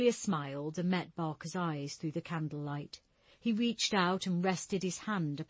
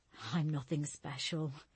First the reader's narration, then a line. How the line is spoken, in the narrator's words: Julia mumbled, as she felt her cheeks blush